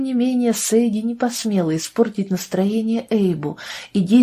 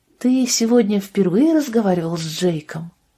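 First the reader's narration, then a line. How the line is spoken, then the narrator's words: Plain. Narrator (Russian): спросила она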